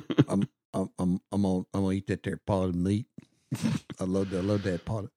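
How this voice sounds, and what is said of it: Sling Blade character impression. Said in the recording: “Sling Blade, greatest movie of all time. ... Do your impression.”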